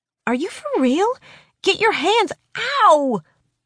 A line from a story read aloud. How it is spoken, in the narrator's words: Rebecca howls as the brush snags, sending fiery pain to the roots